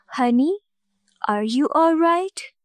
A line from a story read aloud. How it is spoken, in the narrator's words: she asked in her lovely voice